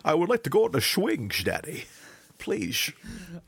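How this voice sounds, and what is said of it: Imitated Sean Connery-style Scottish accent. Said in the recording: “she also speaks in a Connery accent from time to time”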